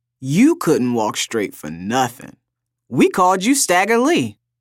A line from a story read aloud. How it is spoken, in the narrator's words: she'd say, laughter ripping through her entire body